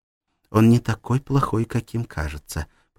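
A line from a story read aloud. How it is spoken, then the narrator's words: Whisper. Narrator (Russian): прошептала Клара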